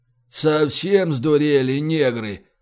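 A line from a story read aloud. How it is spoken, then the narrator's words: Sighing. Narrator (Russian): вздохнул третий всадник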